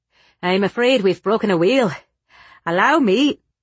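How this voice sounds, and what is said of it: Thick Irish brogue. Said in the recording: “he called out in his thick Irish brogue”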